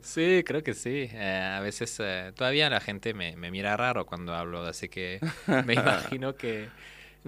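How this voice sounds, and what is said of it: French accent in Spanish. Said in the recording (Spanish): “viene de Francia ... mi acento no se va”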